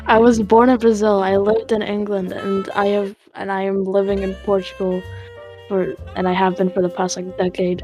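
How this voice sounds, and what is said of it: American accent. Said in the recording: “An American fucking accent.”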